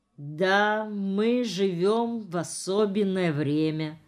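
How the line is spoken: Slow. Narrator (Russian): медленно проговорил Ефим Иванович

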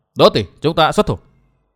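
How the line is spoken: Lowered voice. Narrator (Vietnamese): hoa quái bà hạ giọng nói

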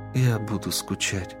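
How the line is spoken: Tender. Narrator (Russian): нежно произнесла Аретто

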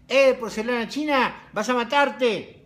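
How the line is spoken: Shout. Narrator (Spanish): gritó

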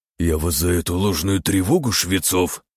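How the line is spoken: Growl. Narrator (Russian): прорычал Лазарев

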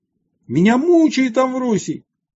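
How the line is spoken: Loud possessed scream. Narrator (Russian): кто-то из народа, имевший в себе нечистого духа, громко закричал

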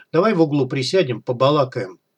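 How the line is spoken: Low undertone. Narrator (Russian): Логвинов вполголоса сказал

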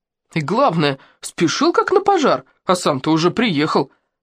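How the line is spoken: Indignant exclamation. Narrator (Russian): возмущенно воскликнул другой прохожий

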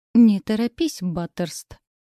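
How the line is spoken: Said through teeth, husband. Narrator (Russian): процедил мой супруг

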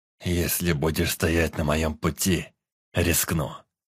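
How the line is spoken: Hissing. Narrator (Russian): прошипел принц

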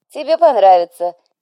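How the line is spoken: Giggle. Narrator (Russian): хихикнул Фуран

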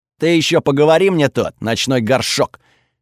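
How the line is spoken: Bark. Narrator (Russian): рявкнул Готфрид

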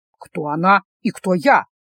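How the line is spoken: Gruff mutter, young man. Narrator (Russian): буркнул парень

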